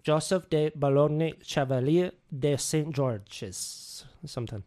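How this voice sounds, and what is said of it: Bad put-on French accent. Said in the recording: “I can't do French for shit ... Rate that French accent. 1 out of 1.”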